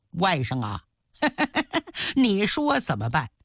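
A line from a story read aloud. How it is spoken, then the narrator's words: Insincere forced laugh. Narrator (Chinese): 常山皮笑肉不笑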